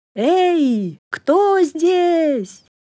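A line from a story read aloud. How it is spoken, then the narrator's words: Loud shout. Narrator (Russian): громко крикнул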